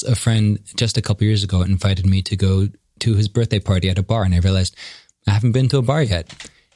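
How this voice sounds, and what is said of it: West Coast American accent. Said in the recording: “flawless Caucasian, West Coast American accent”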